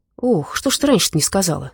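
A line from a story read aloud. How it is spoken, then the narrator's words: Hearty, warm exclamation. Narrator (Russian): с превеличным радушием воскликнул Дима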